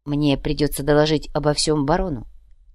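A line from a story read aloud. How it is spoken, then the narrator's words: Quiet. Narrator (Russian): тихо сказал епископ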